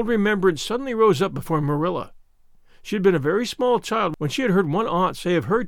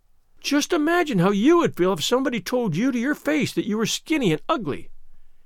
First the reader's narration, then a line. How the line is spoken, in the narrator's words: pleaded Anne, tearfully